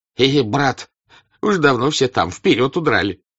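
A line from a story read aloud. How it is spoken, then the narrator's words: Laughing. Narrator (Russian): сказал Ростову солдат, смеясь чему-то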